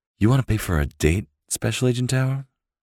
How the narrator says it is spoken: cooed

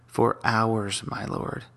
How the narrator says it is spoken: said

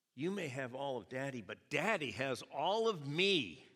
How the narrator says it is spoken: she, in a very loud, proud voice, said

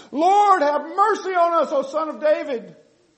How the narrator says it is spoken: they cried out

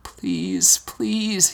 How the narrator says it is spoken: he begged, his voice finally returning to him

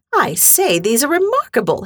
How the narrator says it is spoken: exclaimed

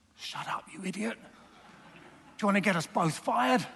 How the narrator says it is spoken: suddenly the lion whispered

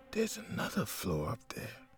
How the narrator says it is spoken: she muttered

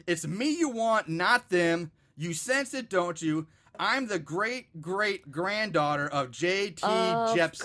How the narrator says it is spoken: Faith again shouts out

